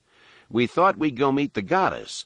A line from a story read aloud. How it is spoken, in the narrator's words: Han remarked dryly